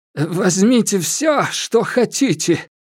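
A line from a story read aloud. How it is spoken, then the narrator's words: Trembling, cheerless offer. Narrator (Russian): дрожащим голосом предложил Боб, растерявший всю свою веселость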